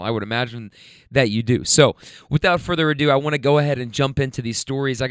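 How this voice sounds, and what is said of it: Slightly hoarse voice. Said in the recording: “my voice is still a little hoarse”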